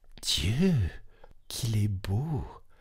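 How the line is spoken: Whispered. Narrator (French): dit tout bas Poucette

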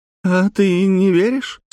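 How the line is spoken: Young woman asking, laughing. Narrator (Russian): спросила девушка и снова засмеялась

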